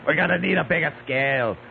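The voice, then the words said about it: Imitates another person's voice. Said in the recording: “doing Robert Shaw from Jaws ... that was so weird. Robert Shaw impersonation”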